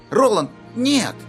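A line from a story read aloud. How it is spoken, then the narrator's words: Exclaiming. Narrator (Russian): воскликнул Кадберт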